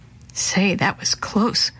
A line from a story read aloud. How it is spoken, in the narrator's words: Quentin whispered